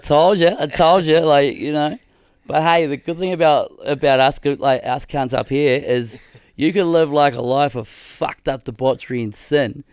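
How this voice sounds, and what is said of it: Put-on Australian accent. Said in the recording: “I'd love if God had an Australian accent.”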